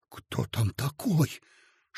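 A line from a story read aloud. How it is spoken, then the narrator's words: Dejected whisper. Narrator (Russian): шепотом спросил убитый Коротков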